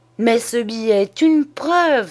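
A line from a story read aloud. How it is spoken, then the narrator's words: Exclaimed. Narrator (French): s'écria Tabaret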